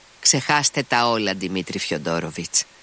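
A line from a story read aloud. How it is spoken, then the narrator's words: Interrupting, decisive tone. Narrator (Greek): τον διέκοψε με αποφασιστικό τόνο η κυρία Χοχλάκοβα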